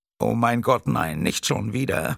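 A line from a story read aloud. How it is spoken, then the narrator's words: Older man whimpering. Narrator (German): wimmerte der Ältere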